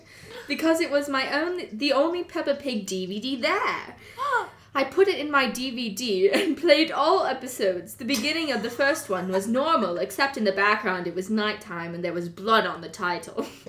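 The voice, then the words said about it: Put-on British accent. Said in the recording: “How do you guys like my British accent?”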